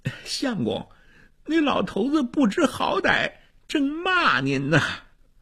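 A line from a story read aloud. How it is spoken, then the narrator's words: Mocking, egging on. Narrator (Chinese): 那个斗子还添油加醋的讥笑衙内的火儿，他说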